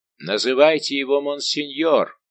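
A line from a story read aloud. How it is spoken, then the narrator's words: Terrible, solemn shout. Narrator (Russian): крикнул Сен-Мару из своего угла граф де ля Фер таким страшным и торжественным голосом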